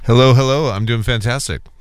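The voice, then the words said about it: Polished radio announcer voice. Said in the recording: “you've got your radio voice on”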